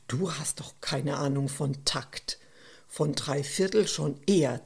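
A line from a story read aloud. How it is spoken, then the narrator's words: Hiss. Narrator (German): zischte Stefan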